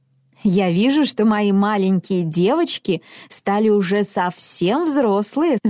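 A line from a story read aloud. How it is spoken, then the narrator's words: Laughing mother. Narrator (Russian): засмеялась мама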